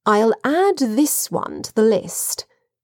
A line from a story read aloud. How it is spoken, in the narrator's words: he said in a confidential tone